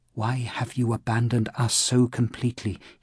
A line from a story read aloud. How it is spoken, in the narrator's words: he prayed in a weak voice